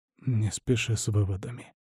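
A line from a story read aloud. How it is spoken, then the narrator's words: Muttered. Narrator (Russian): бормочет граф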